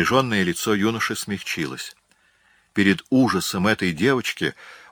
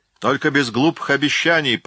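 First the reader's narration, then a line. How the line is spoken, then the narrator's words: Thundering voice. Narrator (Russian): прогремел Блэкфиш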